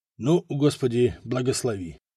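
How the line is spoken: Whisper. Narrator (Russian): шепнул Лотар

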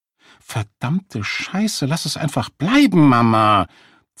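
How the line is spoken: Girl hissing angrily. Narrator (German): zischte das Mädchen die Mutter an

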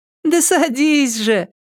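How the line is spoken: Laughing. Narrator (Russian): засмеялась Катя

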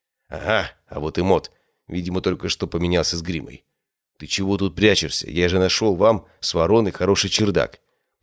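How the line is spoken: Whispered. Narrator (Russian): прошептал ему я

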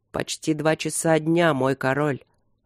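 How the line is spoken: Growl. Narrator (Russian): рыкнул Ровент

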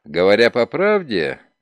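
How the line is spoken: Laughing. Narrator (Russian): Ноултон засмеялся

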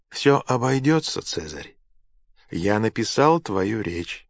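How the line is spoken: Calm. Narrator (Russian): спокойно сказал Сенека

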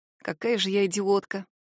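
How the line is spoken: Muttering to oneself. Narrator (Russian): Бормочу я себе под нос

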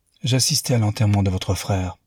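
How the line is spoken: Plain. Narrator (French): dit-il

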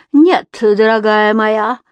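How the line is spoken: Laughing with open pleasure. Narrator (Russian): рассмеялась Филида, не скрывая своего удовольствия

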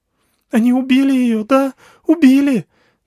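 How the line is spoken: Sobbing. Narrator (Russian): Алька, всхлипывая

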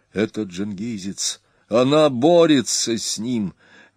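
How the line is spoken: Breathless exhale. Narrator (Russian): Дакхар выдохнул

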